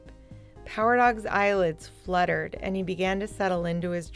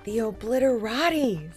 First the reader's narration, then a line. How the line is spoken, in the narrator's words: said Fetcher excitedly